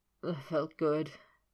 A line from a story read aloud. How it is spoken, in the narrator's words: he grunted